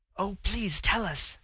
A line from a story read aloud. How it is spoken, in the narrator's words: the girl whispered